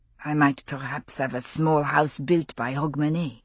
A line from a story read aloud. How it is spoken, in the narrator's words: he murmured to himself